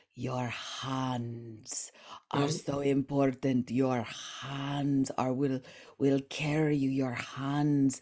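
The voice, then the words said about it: Imitated Spanish accent. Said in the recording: “he has a Spanish accent, so he would say”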